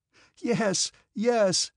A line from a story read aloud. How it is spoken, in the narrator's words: some voices answered, laughing